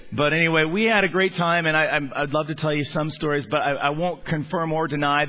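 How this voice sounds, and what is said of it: Slightly raspy voice. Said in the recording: “my voice is a little raspy”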